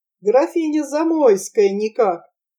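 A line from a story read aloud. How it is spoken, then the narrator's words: Giggle. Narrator (Russian): И хихикнул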